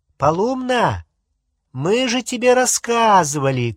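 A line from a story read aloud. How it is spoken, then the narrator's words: Shouted across the room. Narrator (Russian): крикнула через всю комнату Гермиона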